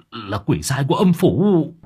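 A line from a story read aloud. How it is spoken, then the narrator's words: Old man's shriek. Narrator (Vietnamese): Linh hồn của lão già ở trong thân xác của cậu Minh ... rú lên một tiếng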